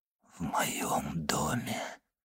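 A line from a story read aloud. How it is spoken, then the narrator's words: Whisper. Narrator (Russian): прошептал он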